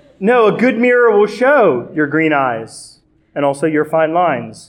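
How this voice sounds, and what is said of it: Usual voice. Nothing is said of it.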